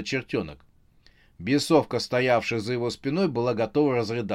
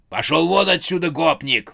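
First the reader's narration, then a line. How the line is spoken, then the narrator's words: Roaring. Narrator (Russian): взревел Велес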